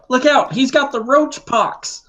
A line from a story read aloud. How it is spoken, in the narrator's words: yell out